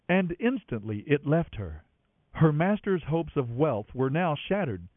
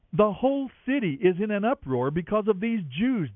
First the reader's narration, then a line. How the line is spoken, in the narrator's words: they shouted